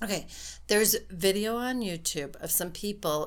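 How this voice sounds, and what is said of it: Usual voice. Nothing is said of it.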